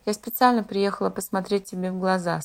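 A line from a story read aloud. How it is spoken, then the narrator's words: Very tired. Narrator (Russian): сказал совсем устало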